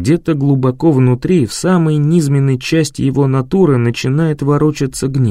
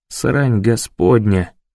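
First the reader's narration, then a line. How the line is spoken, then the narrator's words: Muttered. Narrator (Russian): бормочет Лукас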